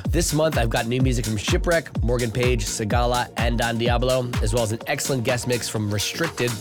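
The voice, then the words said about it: Sick, strained voice. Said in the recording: “You'll have to excuse my voice this month as I am facing a battle with COVID”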